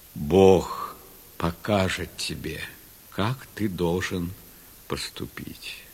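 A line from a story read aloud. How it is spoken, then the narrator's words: Plain. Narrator (Russian): ответил Авраам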